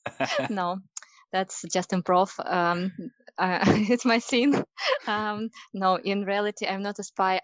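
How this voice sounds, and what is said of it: Distinctive non-native English accent. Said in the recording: “that's an interesting accent”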